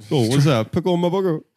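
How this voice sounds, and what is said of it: Imitates another person's voice. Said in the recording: “That's how your RZA impression sounds.”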